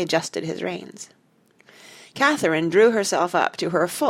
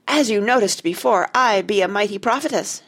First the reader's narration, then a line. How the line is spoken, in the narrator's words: she cried